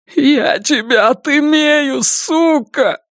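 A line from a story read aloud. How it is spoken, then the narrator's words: Sobbing. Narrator (Russian): рыдает Донован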